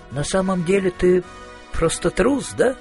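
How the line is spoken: Sigh. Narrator (Russian): вздохнул Маркоу

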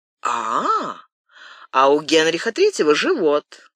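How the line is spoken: Laughing. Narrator (Russian): Рауль рассмеялся

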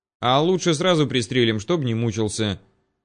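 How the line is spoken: Grim joking. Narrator (Russian): мрачно пошутил Владимир

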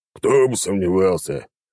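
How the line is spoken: Skeptical snort. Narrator (Russian): хмыкнул Багги

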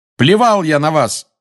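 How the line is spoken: Shouting. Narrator (Russian): закричал Гарри

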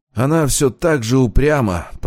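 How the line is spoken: Through gritted teeth. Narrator (Russian): процедил Аскольд

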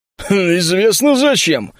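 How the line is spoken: Grunted, big man. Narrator (Russian): хмыкнул здоровяк

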